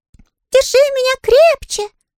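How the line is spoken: Sudden cry. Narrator (Russian): скрикнул Щепкин

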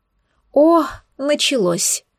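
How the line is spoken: Moan. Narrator (Russian): простонала она

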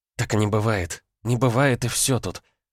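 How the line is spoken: Muttering. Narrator (Russian): бормотала Света

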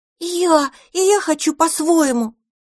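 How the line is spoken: Shouting. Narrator (Russian): закричал Одуванчик

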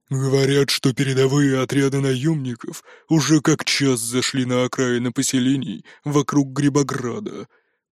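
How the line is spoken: Grumbling orc. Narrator (Russian): проворчал орк

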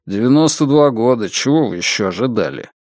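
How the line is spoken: Gruff mutter. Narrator (Russian): тот лишь буркнул в ответ

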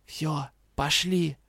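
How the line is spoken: Whispering. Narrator (Russian): прошептал

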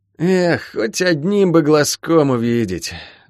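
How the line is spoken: Sighing. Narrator (Russian): вздохнул Сэмми

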